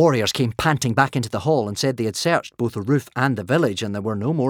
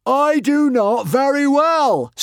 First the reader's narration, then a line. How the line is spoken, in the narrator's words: screamed Norbert the Nutjob